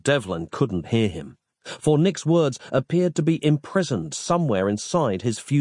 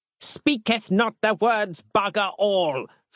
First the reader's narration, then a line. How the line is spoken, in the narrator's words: snapped Harland